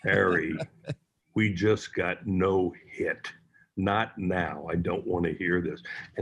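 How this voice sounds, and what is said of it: Imitates another person's voice. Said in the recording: “that was a pretty good Dave Hollins impersonation. You sounded like him.”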